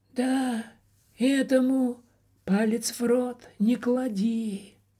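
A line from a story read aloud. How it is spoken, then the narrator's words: Sighing. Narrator (Russian): вздохнул кто-то за его спиной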